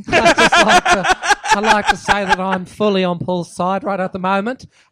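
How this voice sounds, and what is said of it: Put-on New Zealand accent. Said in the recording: “in a fucking New Zealand accent”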